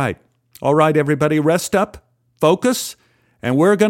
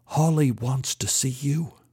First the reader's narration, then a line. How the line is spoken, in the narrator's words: The assistant stage manager interrupted me and whispered